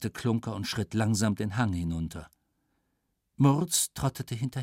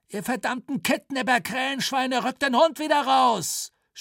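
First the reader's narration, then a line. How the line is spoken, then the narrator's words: Shouting. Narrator (German): schrie Günschal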